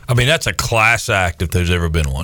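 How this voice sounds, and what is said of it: Sarcastic, mock-praising tone. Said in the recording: “You're being sarcastic.”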